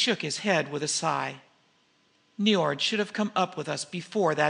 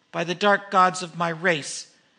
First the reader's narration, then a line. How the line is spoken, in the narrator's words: he cried in anger